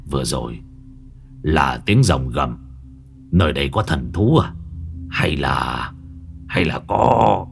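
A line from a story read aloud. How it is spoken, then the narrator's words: Grimacing mutter. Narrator (Vietnamese): Lão nhăn nhó, lão lẩm bẩm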